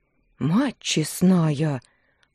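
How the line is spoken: Drunken breathy exclamation. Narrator (Russian): выдохнул, опалив ароматом перегара

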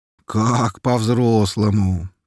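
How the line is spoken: Drawling, hiding surprise. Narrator (Russian): протянул я, стараясь скрыть удивление

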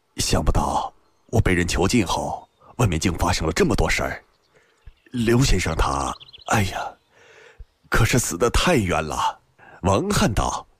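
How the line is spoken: Astonished sigh. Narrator (Chinese): 辛渐很是惊异，半晌才叹道

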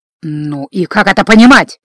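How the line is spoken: Hissed. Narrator (Russian): прошипел Гордон

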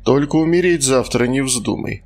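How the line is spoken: Chuckling. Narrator (Russian): хохотнул тот, кого звали Сергеем

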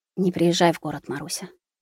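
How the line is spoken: Muffled whisper. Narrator (Russian): приглушенный шепот

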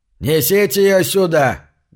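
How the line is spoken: Barked loudly. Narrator (Russian): гаркнул Синг

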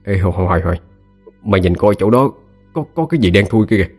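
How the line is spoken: Trembling voice. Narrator (Vietnamese): anh Chính run run giọng nói

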